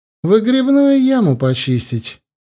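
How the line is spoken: Merry laughing. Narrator (Russian): Юлька весело смеялась

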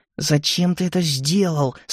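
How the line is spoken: Hissing through teeth. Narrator (Russian): сквозь зубы прошипела Амилия

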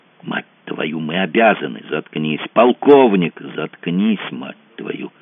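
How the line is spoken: Furious whisper. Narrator (Russian): бешеным шепотом прикрикнул Мазур

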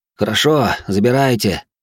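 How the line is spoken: Heavy sighing reply. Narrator (Russian): тяжело вздохнув, ответил солдат

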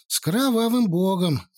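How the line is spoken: Sighing. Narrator (Russian): вздохнул я

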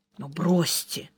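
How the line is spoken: Whispered. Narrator (Russian): так же шепотом ответил Сварог

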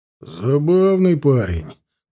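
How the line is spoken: Grumbling. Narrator (Russian): проворчал муж

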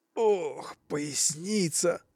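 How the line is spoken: Groaning. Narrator (Russian): стонал Петр Иванович

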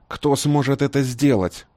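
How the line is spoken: Irritated question. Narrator (Russian): также раздраженно спросил краб

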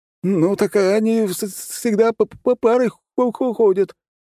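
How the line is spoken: Squeaky older man. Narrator (Russian): пропищал немолодой человек

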